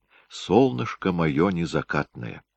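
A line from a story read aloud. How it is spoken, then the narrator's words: Very quiet murmuring. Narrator (Russian): приговаривал тихо-тихо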